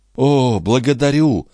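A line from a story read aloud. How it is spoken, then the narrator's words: Exclaimed. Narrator (Russian): воскликнул дон Фернандо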